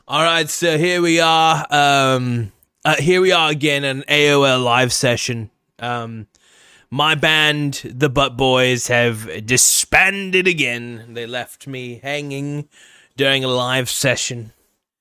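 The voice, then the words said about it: Fake British accent. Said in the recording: “I have a fake British accent”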